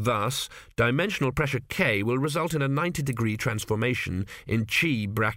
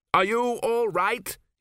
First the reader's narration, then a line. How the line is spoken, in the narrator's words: he shouted above the wind